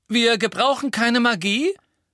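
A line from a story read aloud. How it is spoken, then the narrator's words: Loud shout. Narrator (German): rief Ron laut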